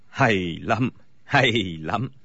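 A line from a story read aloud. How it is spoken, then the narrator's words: Smiling. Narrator (Vietnamese): Bối Hải Thạch mỉm cười nói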